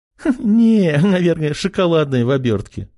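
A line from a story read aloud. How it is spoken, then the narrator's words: Giggling. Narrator (Russian): хихикнула она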